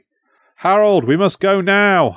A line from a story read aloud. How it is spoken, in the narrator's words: yelled